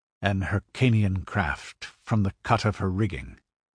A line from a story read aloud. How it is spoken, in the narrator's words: muttered Conan